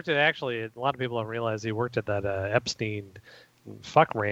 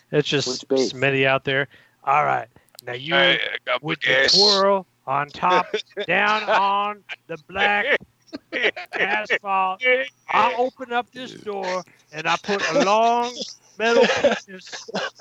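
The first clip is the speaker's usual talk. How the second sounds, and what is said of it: Imitates another person's voice. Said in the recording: “your father-in-law's fucking impersonations ... It's his impersonation.”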